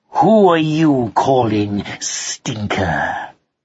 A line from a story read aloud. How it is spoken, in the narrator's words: snarled Alec